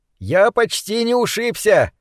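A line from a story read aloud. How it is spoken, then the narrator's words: Shouted from darkness. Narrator (Russian): крикнул из темноты Кит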